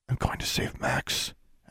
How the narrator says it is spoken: Alexandra whispered

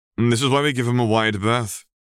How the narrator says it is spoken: he explained to Jack with a chuckle

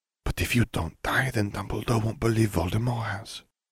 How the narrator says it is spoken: Fleur murmured

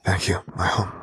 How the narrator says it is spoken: he whispered quietly, a gratitude that sheer and true shining through in his words

